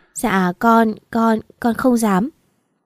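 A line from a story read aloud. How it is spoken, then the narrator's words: Frightened child sobbing. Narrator (Vietnamese): Bé Mận sợ sệt, run run, khóc thút thít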